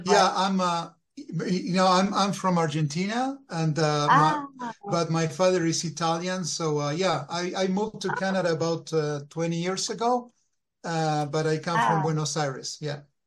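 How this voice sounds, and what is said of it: Thick Argentinian accent. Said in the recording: “You have such a thick, you know, you have an accent.”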